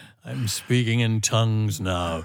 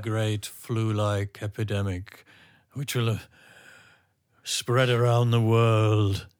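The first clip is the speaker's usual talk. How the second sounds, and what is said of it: Soothsaying prophet voice. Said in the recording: “It was my soothsaying voice.”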